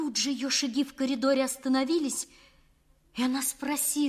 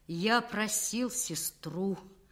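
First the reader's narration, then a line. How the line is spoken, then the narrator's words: Hollow, empty voice. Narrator (Russian): пустым голосом выговорил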